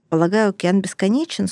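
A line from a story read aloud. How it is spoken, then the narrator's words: Dry. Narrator (Russian): сухо сказал Арчер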